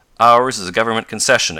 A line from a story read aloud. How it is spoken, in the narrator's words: exclaimed Professor Hylop harshly